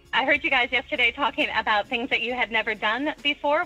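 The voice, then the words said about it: American Minnesota accent. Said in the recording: “clearly an American accent. That's Minnesota, by the way, too, that accent.”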